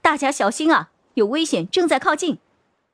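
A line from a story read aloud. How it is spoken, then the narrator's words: Sudden loud shout. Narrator (Chinese): 张璇突然大声喊着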